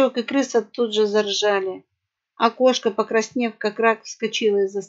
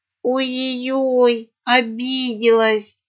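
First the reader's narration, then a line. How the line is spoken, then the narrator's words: Drawling female parrot. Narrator (Russian): протянула попугайха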